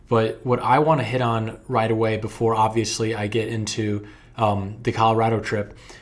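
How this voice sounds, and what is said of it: Slightly hoarse, strained voice. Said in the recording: “I am losing my voice a little bit”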